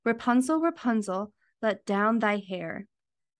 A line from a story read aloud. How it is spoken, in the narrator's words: an enchantress came there and heard how she cried